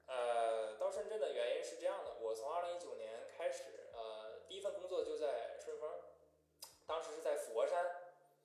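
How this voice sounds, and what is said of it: Northeastern Chinese accent. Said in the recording (Chinese): “这口音是从小养成的，还是练念书的时候养成的？...我这不就是东北话吗？”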